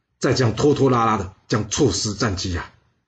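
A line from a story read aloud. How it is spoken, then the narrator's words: Sighing, deliberately complaining. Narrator (Chinese): 他仰天长叹呐，他故意抱怨的说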